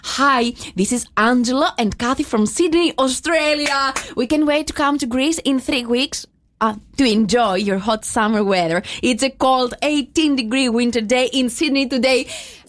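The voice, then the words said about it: English spoken with a striking accent. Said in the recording (Greek): “προφορά. Φοβερή προφορά. ... την προφορά που έβγαλε”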